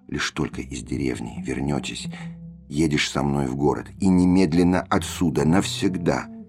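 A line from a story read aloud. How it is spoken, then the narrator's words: Whisper. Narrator (Russian): Я шептал ему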